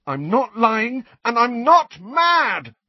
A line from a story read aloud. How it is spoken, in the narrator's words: Harry told her, his voice rising to a shout